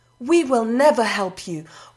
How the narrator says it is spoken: one of the tremblers shouted

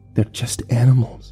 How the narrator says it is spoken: whispered

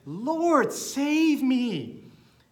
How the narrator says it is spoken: he was afraid and began to sink, cried out and said

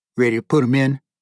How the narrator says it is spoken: He grunted

